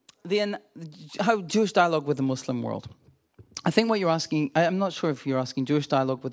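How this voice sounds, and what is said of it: Scottish accent. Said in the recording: “a Scottish accent ... I can make it stronger if you like.”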